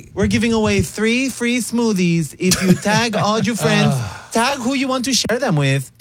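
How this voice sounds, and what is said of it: Put-on Miami influencer accent. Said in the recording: “she's from Miami, apparently, with that accent you're doing”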